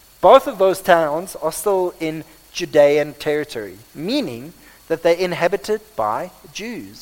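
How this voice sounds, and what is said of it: Afrikaans-accented English. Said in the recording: “this is probably my Afrikaans accent”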